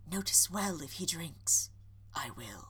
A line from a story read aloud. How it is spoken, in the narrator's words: Charles whispering to Henry